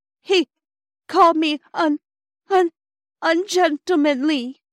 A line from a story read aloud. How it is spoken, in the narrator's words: sobbed Phyllis